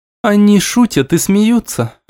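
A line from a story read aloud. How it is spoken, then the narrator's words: Sad voice. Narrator (Russian): отчего-то грустным голосом произнесла Аймара Инка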